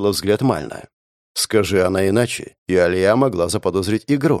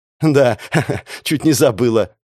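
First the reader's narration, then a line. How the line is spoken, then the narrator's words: Forced laugh. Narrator (Russian): она деланно рассмеялась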